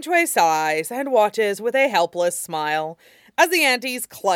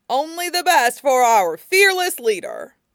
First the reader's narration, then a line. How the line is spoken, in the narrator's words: Auntie Siu hollers